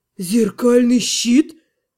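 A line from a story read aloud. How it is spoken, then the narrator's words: Breathless exhale. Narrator (Russian): выдохнул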